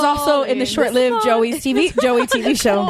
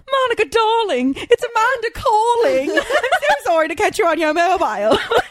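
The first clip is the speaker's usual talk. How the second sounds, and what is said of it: Exaggerated phony British accent. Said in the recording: “super phony British accent”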